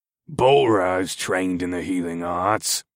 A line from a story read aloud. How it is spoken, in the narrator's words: the big man growled